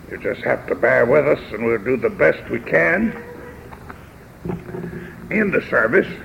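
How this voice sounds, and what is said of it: Hoarse voice. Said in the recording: “I'm sorry that I'm as hoarse as I am tonight.”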